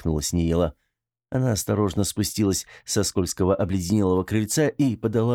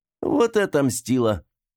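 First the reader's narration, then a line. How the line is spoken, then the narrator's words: Pleased laughter. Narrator (Russian): засмеялась довольная Мила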